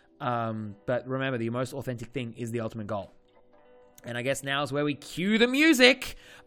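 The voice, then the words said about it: Strained, fading voice. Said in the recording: “I'm starting to lose my voice ... I have also just been nonstop talking and coaching for the last couple of days”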